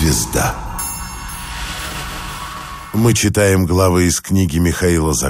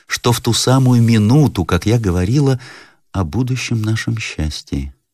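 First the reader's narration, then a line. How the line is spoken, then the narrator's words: Sad. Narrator (Russian): прибавила она, покачав печально головою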